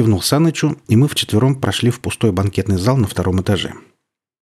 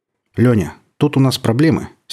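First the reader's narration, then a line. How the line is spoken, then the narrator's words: Serious tone. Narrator (Russian): серьезным тоном произнес Тимофей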